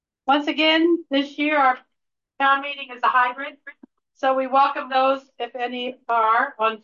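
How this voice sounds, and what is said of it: Usual voice. Nothing is said of it.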